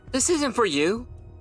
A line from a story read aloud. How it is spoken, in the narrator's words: Erica snapped